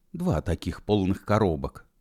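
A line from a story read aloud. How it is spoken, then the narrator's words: Whisper. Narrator (Russian): прошептал Бородатый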